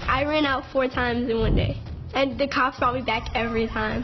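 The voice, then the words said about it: Street accent. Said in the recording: “Do you have an accent of some sort? ... From the street.”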